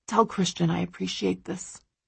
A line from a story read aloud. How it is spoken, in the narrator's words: he says quietly